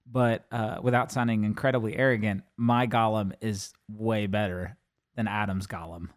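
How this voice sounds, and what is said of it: Worn-out, strained voice. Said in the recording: “my voice is kind of shot because of my soccer game last night”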